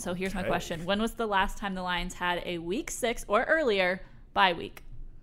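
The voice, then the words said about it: Sick, under-the-weather voice. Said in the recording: “Apologies if my voice sounds a little bit under the weather ... my sick voice”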